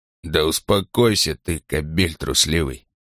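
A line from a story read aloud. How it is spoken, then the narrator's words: Muttering. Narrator (Russian): бормотал Ланкао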